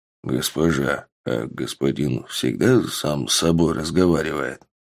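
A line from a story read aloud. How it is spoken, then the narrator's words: Quiet question. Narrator (Russian): тихо спросил Бонд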